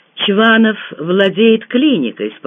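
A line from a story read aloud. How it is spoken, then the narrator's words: Calm explanation. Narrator (Russian): спокойно пояснил Дегтярев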